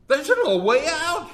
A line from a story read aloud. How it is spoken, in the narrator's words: he exclaimed